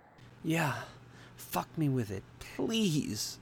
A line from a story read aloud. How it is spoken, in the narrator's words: begged